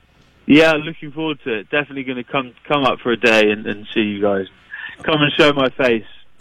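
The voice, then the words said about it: English accent. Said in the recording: “you Americans sometimes get a bit confused between an Australian and an English accent ... Everyone says, you from Australia? Nope.”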